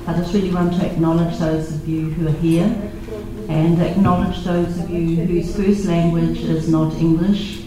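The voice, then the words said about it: New Zealand accent, swallowed word endings. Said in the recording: “my New Zealand accent. We swallow the ends of our words ... it's a New Zealand accent, not an Australian one”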